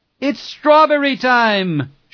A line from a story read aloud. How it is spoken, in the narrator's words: she shouted